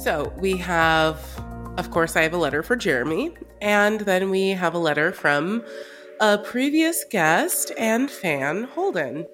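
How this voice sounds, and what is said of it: Congested, sick-sounding voice. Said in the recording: “Sorry about my voice. I have a disgusting cold.”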